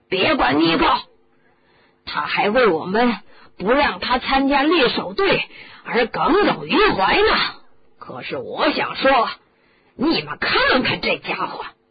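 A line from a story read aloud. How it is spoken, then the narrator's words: Shouting. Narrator (Chinese): 帕特利克先生的脑袋在地板上喊着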